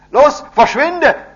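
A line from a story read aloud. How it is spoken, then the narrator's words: Loud shout. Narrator (German): schrie David laut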